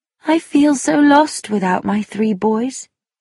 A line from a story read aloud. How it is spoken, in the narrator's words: Tuppence said sadly